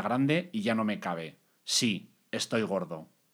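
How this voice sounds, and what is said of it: Serious robotic Terminator-like voice. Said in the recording (Spanish): “¿Quién es Terminator? Lo ves de Terminator. ... con esa voz de robot. ... te ponías muy serio”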